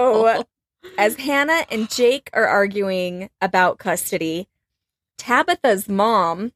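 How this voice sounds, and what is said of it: Usual voice. Nothing is said of it.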